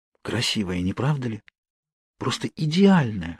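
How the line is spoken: Whisper in the ear. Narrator (Russian): шепнула мне на ухо Кейт

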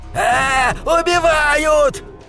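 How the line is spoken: Screamed. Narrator (Russian): завопил

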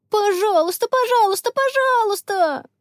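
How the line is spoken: Children yelling in chorus. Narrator (Russian): завопили ребята хором

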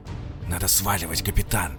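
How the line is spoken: Hissing. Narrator (Russian): шипел лейтенант

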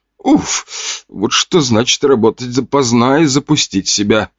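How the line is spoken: Groaning. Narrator (Russian): Простонала она

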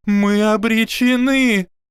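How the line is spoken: Shrieking. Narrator (Russian): Завизжала Мелисента Булстроуд

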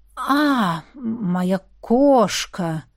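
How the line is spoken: Slow repetition. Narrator (Russian): медленно повторил Равьен

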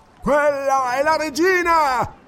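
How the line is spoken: Captain roaring. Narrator (Italian): ruggì il capitano

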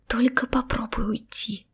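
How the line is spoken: Displeased hissing. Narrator (Russian): шипела недовольно андалузская красавица

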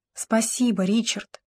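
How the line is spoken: Whisper. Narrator (Russian): Даяна прошептала

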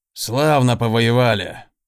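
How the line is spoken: Mutter. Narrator (Russian): пробормотал он

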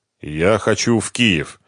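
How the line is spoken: Gloomy statement. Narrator (Russian): мрачно произнес Ренат

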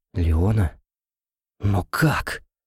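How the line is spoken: Muttered under breath. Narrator (Russian): пробормотал себе под нос Льюис

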